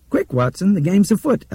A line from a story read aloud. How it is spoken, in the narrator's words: Albert said and laughed crazily